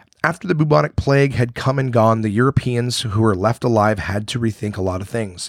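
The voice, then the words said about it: Hoarse voice. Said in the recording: “my voice is still hoarse ... I'm still a little sick”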